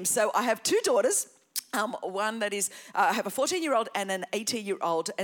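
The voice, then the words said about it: Australian accent. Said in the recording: “as you could tell from my accent ... and I are from Australia”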